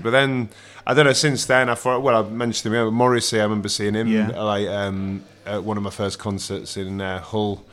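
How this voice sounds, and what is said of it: Yorkshire English accent. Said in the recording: “Because I'm from Bridlington, I'm from Yorkshire. Hull. ... the accent gave it away. ... It's still there a bit, despite living down south for a lot of years.”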